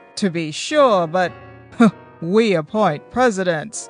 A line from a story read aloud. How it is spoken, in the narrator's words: laughed Mr